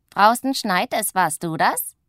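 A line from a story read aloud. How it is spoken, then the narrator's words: Little witch giggling. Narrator (German): Die kleine Hexe Zuckerguss kichert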